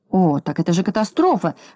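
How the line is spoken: Exclamation. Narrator (Russian): воскликнул господин Крабс

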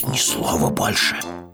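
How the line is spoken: Hissed. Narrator (Russian): прошипел Пэтсон

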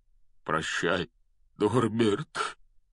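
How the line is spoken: Breaking voice, forced out. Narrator (Russian): Срывающимся голосом выдавил из себя Хагрид

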